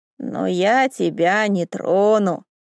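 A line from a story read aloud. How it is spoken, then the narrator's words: Hoarse. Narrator (Russian): хрипло продолжил Ивар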